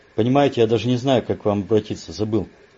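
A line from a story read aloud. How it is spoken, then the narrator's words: Blurted, nervous laugh. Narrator (Russian): выпалил Бруно неожиданно для себя и даже хохотнул коротким нервным смешком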